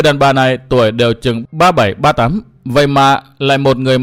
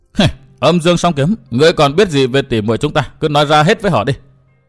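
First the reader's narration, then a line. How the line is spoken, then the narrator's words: Sneering. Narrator (Vietnamese): Nữ nhân áo đỏ cười khẩy nói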